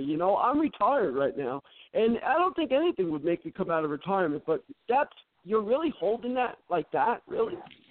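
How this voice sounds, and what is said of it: Agitated, upset-sounding delivery. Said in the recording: “you sound a little upset”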